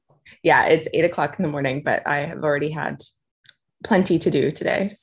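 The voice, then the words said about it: American accent. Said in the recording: “I'm here in Austin, Texas, uh, with my American accent”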